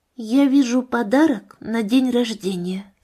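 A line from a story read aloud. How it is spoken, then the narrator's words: Quiet. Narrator (Russian): сказала она тихо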